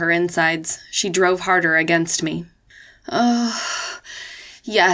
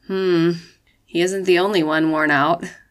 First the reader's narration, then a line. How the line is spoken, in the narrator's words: Kennedy responded sleepily